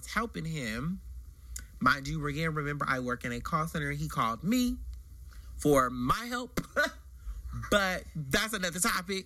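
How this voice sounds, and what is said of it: Male voice with stereotypically gay inflection. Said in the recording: “my voice is a little, you know, people say they don't hear it, but we call it gay voice in the gay community. Yeah. And you can hear it.”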